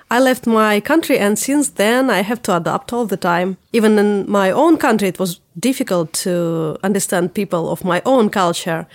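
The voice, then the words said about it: Russian accent. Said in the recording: “I'm from Russia. You could already tell that by my tough accent.”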